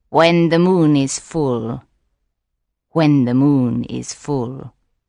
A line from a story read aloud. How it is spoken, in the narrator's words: she said softly